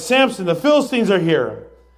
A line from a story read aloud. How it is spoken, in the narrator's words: she cried